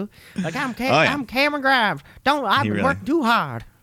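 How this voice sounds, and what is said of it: Put-on southern twang imitation. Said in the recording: “I really clued into the southern twang he's trying to put on his voice.”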